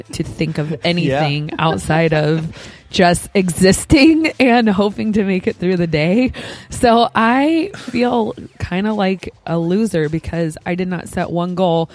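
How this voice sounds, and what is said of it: Sick, flu-affected voice. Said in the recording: “I had the flu... You could probably hear it in my voice. I'm still fighting a little something.”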